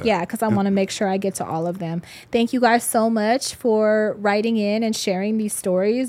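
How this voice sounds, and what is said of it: Hoarse, fading voice. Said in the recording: “I'm starting to lose my voice. I don't know if you can hear it. ... I'm starting to lose my voice and it's getting really hoarse.”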